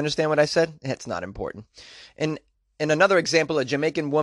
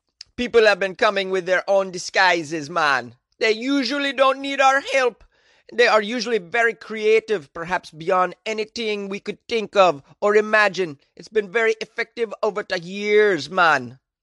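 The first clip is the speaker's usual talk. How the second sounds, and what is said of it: Put-on Jamaican accent. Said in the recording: “That's my Jamaican accent.”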